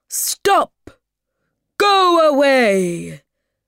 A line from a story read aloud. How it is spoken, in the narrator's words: shouted Baboon